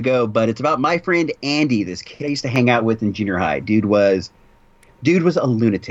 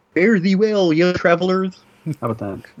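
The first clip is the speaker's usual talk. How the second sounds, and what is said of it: Imitates another person's voice. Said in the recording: “That was my Kevin Zurb imitation.”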